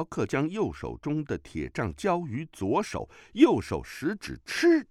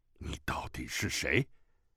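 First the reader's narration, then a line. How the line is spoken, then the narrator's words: Low voice. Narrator (Chinese): 低声说了一句话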